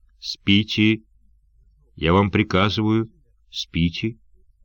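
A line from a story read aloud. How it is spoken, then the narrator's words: Calm commanding voice. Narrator (Russian): спокойным властным голосом он сказал им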